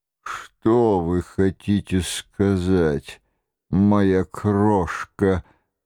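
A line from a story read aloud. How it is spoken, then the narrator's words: Rapturous muttering. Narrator (Russian): бормотал король в упоении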